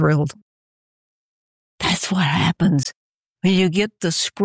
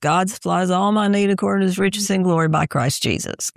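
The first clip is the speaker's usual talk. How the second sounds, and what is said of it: Flat monotone reading voice. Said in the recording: “in that monotone voice”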